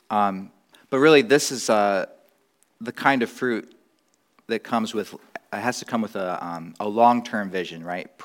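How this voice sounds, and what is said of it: Voice lower than usual. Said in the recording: “I've been getting over a cold, so I'm sorry if my voice is a little lower.”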